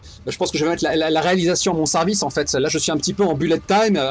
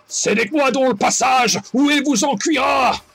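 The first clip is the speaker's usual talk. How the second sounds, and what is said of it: Deeper, more menacing character voice. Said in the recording (French): “avec une voix un peu plus grave qu'elle ne l'est vraiment”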